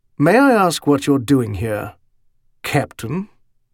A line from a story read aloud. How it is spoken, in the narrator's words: he asked a bit coldly